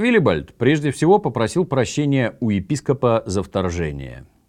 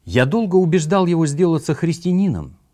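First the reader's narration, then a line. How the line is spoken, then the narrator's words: Plain. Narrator (Russian): сказал он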